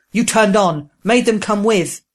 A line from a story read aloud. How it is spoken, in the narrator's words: Proam roaring